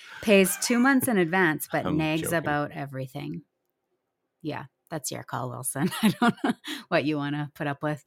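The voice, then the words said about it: Slightly raspy, strained voice. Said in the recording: “losing my voice already? ... Can you hear ... voice getting a little raspy?”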